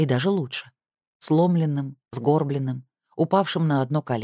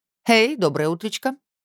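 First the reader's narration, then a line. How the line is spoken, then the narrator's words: Cheerful. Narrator (Russian): бодро сказала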